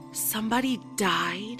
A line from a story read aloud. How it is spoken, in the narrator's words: asked in a soft voice